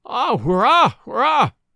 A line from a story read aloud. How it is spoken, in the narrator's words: wailed the cook